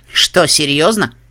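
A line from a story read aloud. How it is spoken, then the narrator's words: Snorting with laughter. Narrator (Russian): фыркнул от смеха Триггер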